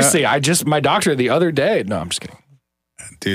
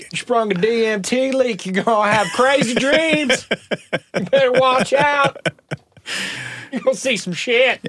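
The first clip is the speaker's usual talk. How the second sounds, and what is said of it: Put-on ignorant Southern accent. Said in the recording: “ignorant Southern accent”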